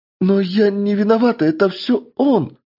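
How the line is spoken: Theatrical exclamation. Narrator (Russian): воскликнула баронесса и, как по мне, слишком наигранно

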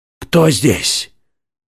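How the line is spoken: Frightened shout. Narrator (Russian): крикнул он в страхе

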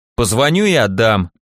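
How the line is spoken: Irritated snort. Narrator (Russian): раздраженно фыркнул я

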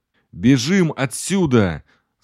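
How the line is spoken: Yelling. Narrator (Russian): заорал я

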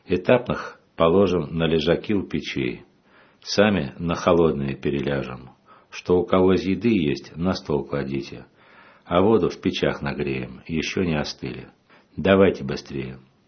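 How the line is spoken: Calm. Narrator (Russian): Отец Арсений спокойно сказал

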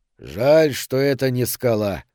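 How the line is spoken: German grumbling. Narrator (Russian): проворчал немец

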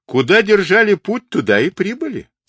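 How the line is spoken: Laughing explanation. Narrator (Russian): смеясь, пояснил Мухали

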